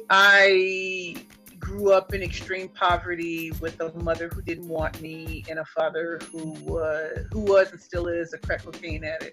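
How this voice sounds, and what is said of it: St. Louis, Missouri accent. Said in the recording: “I am from the inner city of St. Louis, Missouri. ... You can hear it. I still have an accent after all these years.”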